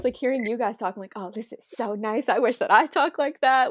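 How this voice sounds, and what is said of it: Soothing American accent. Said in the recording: “your voice is really nice and soothing ... your American accent”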